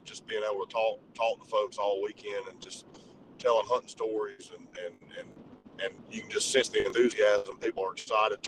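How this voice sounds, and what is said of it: Hoarse, worn-out voice. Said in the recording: “you can probably tell just by listening to me, I, my voice is about gone”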